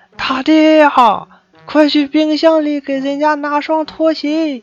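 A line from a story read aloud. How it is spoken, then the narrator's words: Excited shout. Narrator (Chinese): 男友的妈妈……激动地喊道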